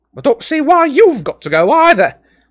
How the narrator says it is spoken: snapped, dropping all pretense now

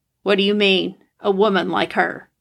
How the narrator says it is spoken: He almost growled

